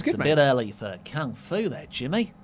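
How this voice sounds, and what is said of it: Attempted Australian accent. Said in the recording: “can you do an Australian accent ... Well, you tried.”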